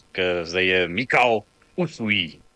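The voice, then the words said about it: Put-on Japanese accent. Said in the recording (Catalan): “Dic així amb accent japonès.”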